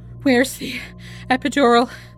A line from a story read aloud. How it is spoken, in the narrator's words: Gabriella breathed, too exhausted to speak up